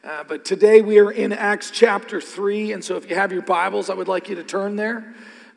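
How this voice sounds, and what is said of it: Hoarse, worn-out voice. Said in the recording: “I don't know why my voice is gone. Probably have done some cheering lately”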